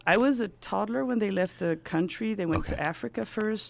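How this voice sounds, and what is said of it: Blended American and British accent. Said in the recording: “you can't figure out my accent just because it's a blend of, American, British, because my teachers there were British, mm-hmm, and my own”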